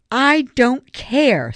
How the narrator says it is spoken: Savannah interrupted hotly

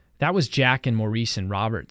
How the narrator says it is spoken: said Ralph

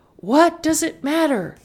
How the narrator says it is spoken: yelled Marta

